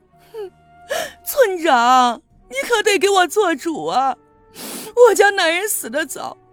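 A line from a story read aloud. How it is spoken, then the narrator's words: Whiny sobbing. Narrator (Chinese): 陈寡妇却哭哭唧唧的说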